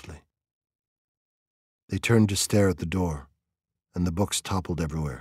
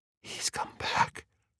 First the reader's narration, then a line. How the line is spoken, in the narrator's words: whispered